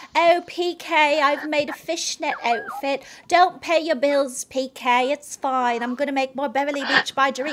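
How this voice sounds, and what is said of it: Impression of Dorit. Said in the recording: “You sound just like her.”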